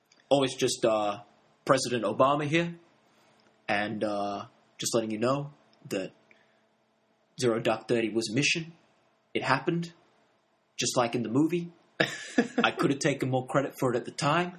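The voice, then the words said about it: Imitates another person's voice. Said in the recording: “That's one of your better accents, ... better impressions ... Obama impersonator”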